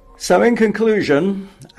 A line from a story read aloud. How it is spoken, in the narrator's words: Andrew Tilson barked at his editorial team